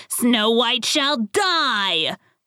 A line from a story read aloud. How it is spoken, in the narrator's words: she shouted